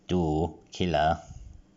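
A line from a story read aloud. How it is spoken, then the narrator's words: Plain. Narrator (German): fragte er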